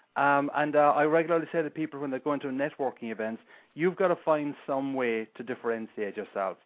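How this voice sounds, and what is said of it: Irish brogue accent. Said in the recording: “people might remember me because of my accent. But in general, most people don't have the Irish brogue”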